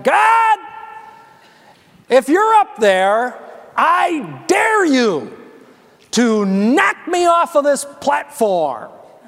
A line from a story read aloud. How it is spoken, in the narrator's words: he shouted